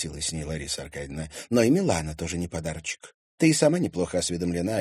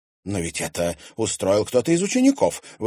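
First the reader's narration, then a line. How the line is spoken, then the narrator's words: Indignant exclamation. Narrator (Russian): возмущенно воскликнула Доминика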